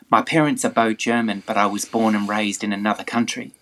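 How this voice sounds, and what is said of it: Australian English accent. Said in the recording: “no, I think it's more Australian ... He's Australian for sure”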